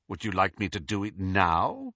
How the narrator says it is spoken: asked Snape, his voice heavy with irony

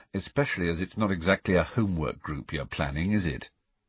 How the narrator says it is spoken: said Harry dryly

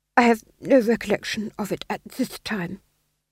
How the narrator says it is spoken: he murmured

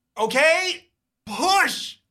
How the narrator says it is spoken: You yell

